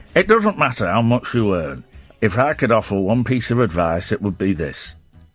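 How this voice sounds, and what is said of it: Peter Stringfellow impression. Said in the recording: “I could probably do a Peter Stringfellow impression”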